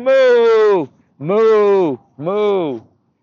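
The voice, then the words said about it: Loud cow mooing impression. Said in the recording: “on the top of his lungs, beautiful impersonation of a cow”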